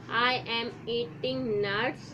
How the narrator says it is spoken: said

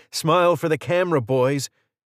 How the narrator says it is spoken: shouted

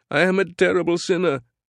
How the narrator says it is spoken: shrieked

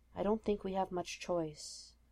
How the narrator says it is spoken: Steve murmured quietly

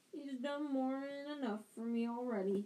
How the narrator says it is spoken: groaned Hagrid

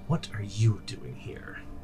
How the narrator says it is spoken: the Fang hisses out

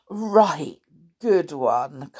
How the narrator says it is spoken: Kai laughed

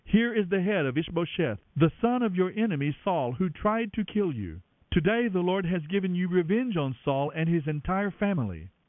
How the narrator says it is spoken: they exclaimed

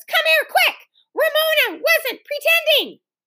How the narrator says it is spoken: cried Beezus

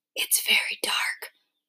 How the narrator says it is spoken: Mama whispered

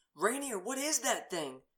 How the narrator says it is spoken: Artias screamed, tears coating his cheeks

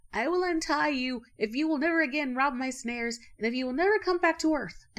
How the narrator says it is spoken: From a great distance he cried

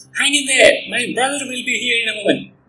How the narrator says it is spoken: Riley yells

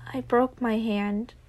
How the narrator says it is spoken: Dick mumbled

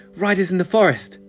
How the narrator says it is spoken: Gunnar said breathlessly

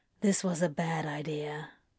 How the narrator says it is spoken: Crowley mutters

